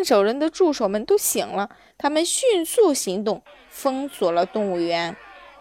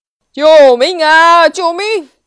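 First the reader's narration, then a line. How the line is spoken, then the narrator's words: Frantic yelling. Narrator (Chinese): 看守人赶紧大叫起来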